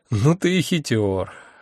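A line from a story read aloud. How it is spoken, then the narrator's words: Sighing. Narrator (Russian): вздохнул я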